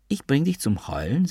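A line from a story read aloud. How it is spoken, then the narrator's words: Plain. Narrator (German): sagte sie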